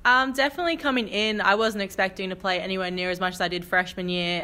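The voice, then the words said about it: Australian accent. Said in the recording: “they're going to hear the accent, so they're going to know that you're an international player from Australia”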